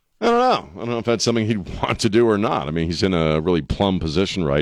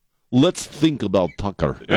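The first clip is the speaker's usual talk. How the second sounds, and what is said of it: Poor put-on Slovakian accent. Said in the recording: “That's the worst Slovakian accent I've ever done. ... you gotta sound kind of like the vampire, like Dracula”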